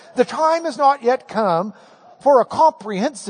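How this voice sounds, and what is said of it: Usual voice. Nothing is said of it.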